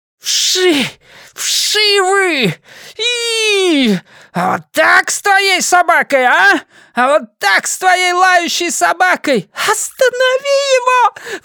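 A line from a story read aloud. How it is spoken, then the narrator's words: Shriek. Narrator (Russian): взвизгнула Диана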